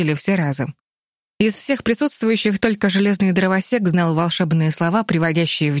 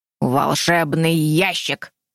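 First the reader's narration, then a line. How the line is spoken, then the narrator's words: Short lion's growl. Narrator (Russian): коротко рыкнул смелый лев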